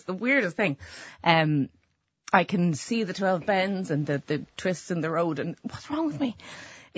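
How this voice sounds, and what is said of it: Emotional, wavering voice. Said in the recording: “you can hear my voice. I get emotional talking about it.”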